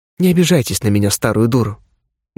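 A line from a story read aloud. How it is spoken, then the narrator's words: Sad. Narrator (Russian): грустно произнесла Зоя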